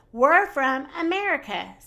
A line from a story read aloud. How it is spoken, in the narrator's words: said Minnie